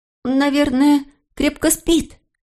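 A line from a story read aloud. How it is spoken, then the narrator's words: Cheerful, full voice. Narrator (Russian): весело сказал Филипп, уже не шепотом, а в полный голос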